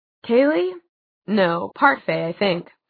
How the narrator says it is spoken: said Jace

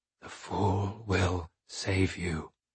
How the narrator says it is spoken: with certainty, I whispered

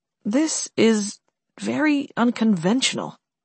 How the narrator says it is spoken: David said softly

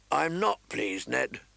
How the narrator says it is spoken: Robert grumbled

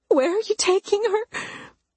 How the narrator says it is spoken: Mama pleaded

